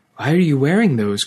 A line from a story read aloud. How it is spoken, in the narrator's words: cried Wirissa